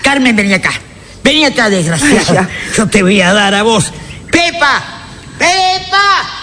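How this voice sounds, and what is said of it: Angry shouting. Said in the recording (Spanish): “¿Pero por qué gritas?”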